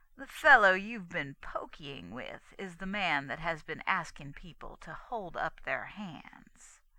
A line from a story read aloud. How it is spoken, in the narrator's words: emphasizing every word, he rasped out